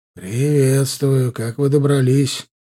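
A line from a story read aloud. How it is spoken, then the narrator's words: Smoky husky voice. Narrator (Russian): заговорил очень знакомый прокуренный оттого хрипловатый голос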